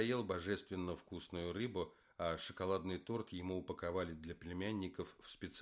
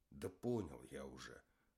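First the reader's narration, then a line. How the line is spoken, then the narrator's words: Grumbling. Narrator (Russian): буркнул Зиганшин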